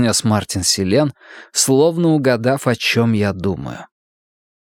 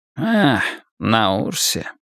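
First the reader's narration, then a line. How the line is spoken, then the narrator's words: Mumbled. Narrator (Russian): пробормотал Селен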